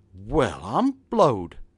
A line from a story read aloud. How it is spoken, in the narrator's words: exclaimed he